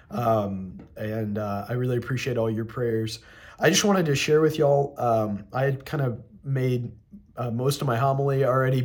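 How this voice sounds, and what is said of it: Sick, under-the-weather voice. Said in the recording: “As you can probably tell by my voice, I'm a little under the weather.”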